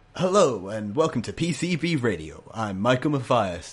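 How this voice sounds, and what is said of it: Radio announcer voice. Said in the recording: “uses his radio voice”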